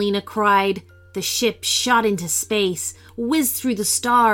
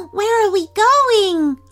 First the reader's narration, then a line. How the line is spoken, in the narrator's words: Aurelio cried